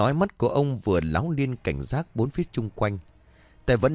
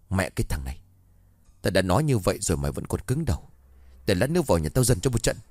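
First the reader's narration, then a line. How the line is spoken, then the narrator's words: Irritated hard voice. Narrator (Vietnamese): Ông có vẻ bực tức rồi gằn giọng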